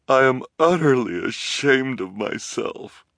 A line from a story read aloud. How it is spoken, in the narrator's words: she said, through her tears, and her shoulders shook with sobs